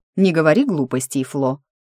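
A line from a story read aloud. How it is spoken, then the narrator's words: Stern scolding, stepmother. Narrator (Russian): строго пожурила ее Дениза, вторая жена дяди Берни и по совместительству мачеха неугомонной младшей кузины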